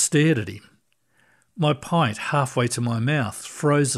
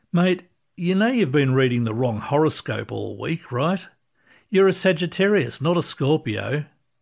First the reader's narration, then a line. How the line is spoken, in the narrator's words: Dave trying not to laugh, and then said